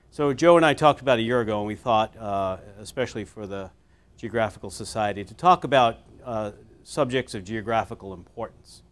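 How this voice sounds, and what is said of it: Voice strained from illness. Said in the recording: “I've been sick for the last couple of days... apologize for my voice.”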